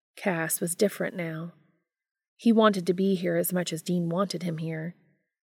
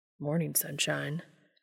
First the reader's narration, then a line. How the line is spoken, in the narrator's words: Dean said quietly